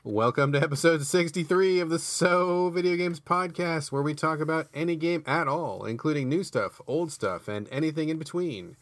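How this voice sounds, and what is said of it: Announcer voice. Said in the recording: “Got all primed and did like the announcer voice.”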